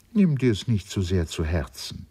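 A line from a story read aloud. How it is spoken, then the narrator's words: Plain. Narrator (German): sagte sie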